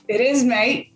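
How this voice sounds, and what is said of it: Attempted Australian accent. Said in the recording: “I'm not even sure that was Australian.”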